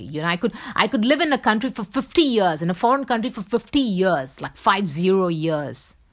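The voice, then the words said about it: Indian Bombay accent. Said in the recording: “my accent will still be the Bombay accent ... my accent is basically a Bombay accent”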